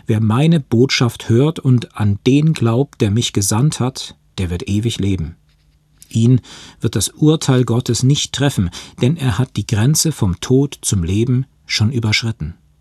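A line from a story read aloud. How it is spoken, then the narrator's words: Slow reading aloud. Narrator (German): las er langsam aus dem Johannesevangelium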